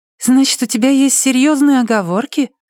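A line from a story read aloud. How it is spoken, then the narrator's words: Innocent, insistent. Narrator (Russian): настаивает она невиннейшим голосом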